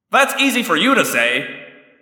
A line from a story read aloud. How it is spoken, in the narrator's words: I shouted back